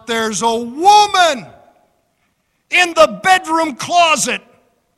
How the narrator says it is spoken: he shouted out

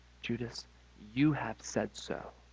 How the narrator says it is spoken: Jesus quietly responds

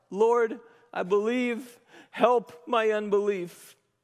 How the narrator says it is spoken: in broken humility, he cried out

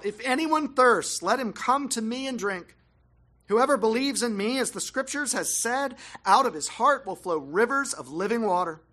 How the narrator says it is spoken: Jesus stood up and cried out

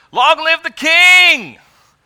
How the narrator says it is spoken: All the people shouted

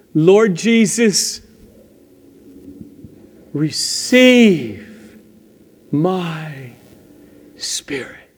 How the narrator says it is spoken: he called out

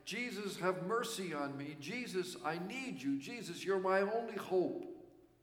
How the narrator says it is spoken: one could just hear the beggar shout over the noise of the crowd passing by

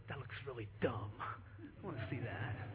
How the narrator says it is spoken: I'll usually whisper

